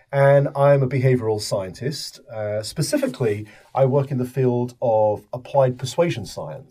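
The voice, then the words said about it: British accent. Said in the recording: “I am from the United Kingdom, as you can probably guess from my accent.”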